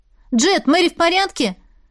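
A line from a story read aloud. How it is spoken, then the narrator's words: Shouting upward. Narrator (Russian): Подняв голову, крикнула парню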